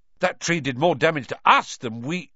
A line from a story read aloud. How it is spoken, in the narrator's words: Ron blurted out